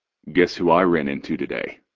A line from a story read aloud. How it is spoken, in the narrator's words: He asks, his voice far too calm